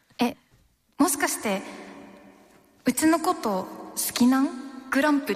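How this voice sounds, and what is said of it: Attempted Hakata dialect. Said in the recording (Japanese): “博多弁で言う”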